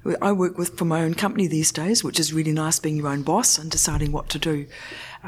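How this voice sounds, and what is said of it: New Zealand accent. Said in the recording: “in case you can't recognise the accent, it's actually a New Zealand accent”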